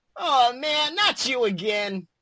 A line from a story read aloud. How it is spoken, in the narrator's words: groaned Beast Boy